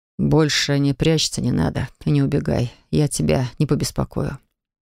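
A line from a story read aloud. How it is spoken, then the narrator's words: Hoarse, wheezing. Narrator (Russian): прохрипел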